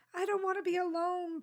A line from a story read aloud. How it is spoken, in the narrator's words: Paul whined